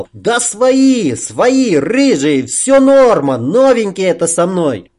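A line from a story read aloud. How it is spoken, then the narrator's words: Hasty peaceable shout. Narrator (Russian): Сосед, миролюбиво подняв руки, поспешно прокричал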